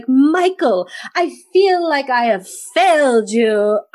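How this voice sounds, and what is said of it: Over-the-top theatrical stage delivery. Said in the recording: “he is acting like he should be on Broadway. Like he should be in a theater... why is he talking like that?... over the top”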